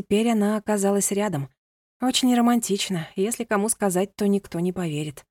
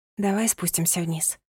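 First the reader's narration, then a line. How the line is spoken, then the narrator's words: Whisper. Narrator (Russian): прошептала она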